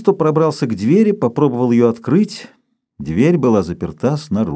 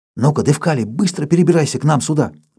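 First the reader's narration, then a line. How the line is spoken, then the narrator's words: Whisper. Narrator (Russian): прошептал Павлыш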